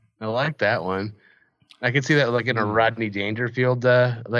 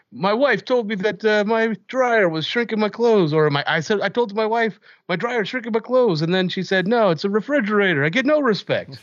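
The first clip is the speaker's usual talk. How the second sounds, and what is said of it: Bad impression of another person's voice. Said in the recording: “Bad Rodney Dangerfield impression”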